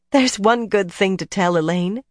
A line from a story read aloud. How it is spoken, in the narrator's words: Egwene said breathlessly, still trying to recover